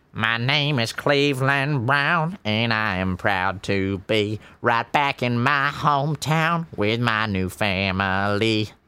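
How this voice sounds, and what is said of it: Cartoon character voice impression. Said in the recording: “his impression of Cleveland Brown”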